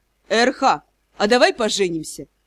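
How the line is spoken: Thoughtful. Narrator (Russian): Он задумчиво предложил

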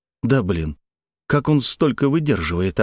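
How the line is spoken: Doomed exclamation. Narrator (Russian): обреченно воскликнул

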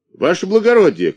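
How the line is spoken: Shouted. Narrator (Russian): крикнул Тиша

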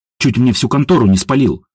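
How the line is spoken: Grumbling young woman. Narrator (Russian): проворчала девушка

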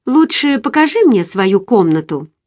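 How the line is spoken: Casual tone. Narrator (Russian): добавила небрежным тоном

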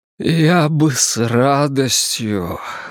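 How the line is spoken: Breathy. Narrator (Russian): выдохнул он

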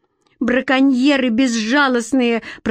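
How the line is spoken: Moaning. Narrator (Russian): простонала Лидка

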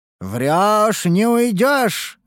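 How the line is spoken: Roaring. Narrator (Russian): взревел я

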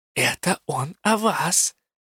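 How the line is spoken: Low whisper. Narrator (Russian): понизив голос, шепнула Элла

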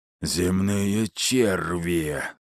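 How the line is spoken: Terrible roar. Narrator (Russian): страшно зарычал Астерий

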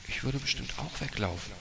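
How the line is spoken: Quiet. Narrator (German): sagte sie leise

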